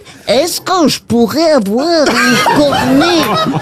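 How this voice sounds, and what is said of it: Put-on Belgian accent. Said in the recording (French): “l'accent belge”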